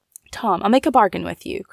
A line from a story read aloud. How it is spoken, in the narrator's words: cried Fanny eagerly